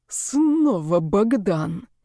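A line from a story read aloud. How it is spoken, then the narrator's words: Growled into phone. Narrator (Russian): прорычал в трубку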